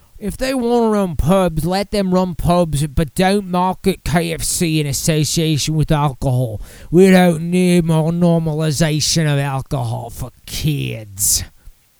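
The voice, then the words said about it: Decent put-on Australian accent. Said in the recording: “Decent enough Australian accent.”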